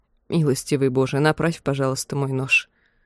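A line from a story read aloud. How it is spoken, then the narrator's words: Whispered. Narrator (Russian): прошептал Хьюг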